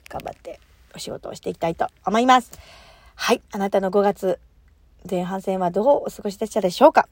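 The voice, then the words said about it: Hoarse voice. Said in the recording (Japanese): “昨日喋りすぎて声が枯れております”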